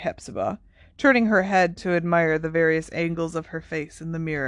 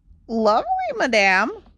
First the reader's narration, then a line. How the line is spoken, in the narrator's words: squeaked Hokey